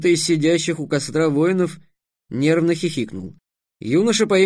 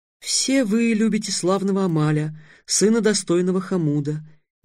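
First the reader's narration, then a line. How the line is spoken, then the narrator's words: Tender melodic young voice. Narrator (Russian): нежным мелодичным голоском сказал второй юноша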